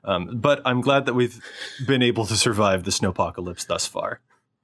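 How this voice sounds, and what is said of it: Congested voice with heavy vocal fry. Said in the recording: “struck with a very severe head cold ... Folks can probably tell listening to me have got some serious vocal fry going on”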